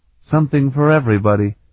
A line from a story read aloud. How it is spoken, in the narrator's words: Sarabian said dryly